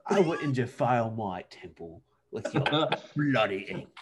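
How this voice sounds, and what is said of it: Bad put-on British accent. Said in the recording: “what is that atrocious British accent you did on the podcast”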